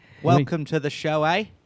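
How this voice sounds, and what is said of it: Bad put-on Australian accent. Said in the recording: “how is my Australian accent? ... That is the worst. ... that's a minus 1 ... Americans make it sound like the Simpsons Australian, and it's terrible”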